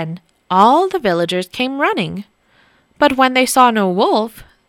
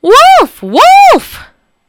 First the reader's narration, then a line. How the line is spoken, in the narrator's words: he drew in his breath and shouted